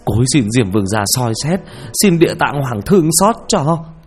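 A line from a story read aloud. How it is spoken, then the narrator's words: Terrified tearful wail. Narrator (Vietnamese): Ông thầy trà run lên bần bật vì sợ hãi, gào lên trong nước mắt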